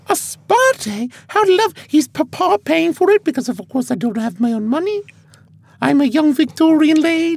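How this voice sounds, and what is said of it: Drifting put-on posh accent. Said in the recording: “I don't know where my accent's going. I'm Mrs. Doubtfire now. Okay. Now I'm becoming Mrs. Doubtfire.”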